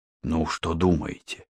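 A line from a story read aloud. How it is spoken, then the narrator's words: Quiet question. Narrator (Russian): тихо спросил Мухаммед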